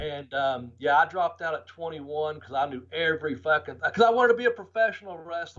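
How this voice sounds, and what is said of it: Country accent. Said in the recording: “this old country accent”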